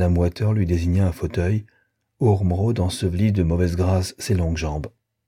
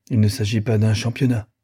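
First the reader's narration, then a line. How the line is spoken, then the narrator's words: Grumbled. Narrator (French): grogna Waiter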